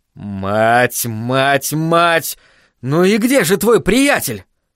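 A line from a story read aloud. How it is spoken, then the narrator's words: Hissed. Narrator (Russian): прошипел Айзек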